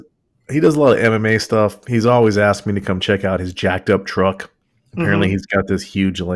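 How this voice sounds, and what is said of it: Usual voice. Nothing is said of it.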